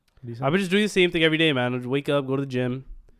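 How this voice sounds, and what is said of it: Stuffy-nosed, sick-sounding voice. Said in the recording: “Is my voice still a little different? ... Yeah, it is. ... my voice sounds weird throughout this podcast because I'm still, my nose is a little stuffy. ... I still sound sick somehow”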